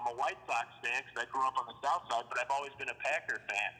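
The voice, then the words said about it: Midwest Chicago accent. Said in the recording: “your Midwest accent. It's such a Chicago accent.”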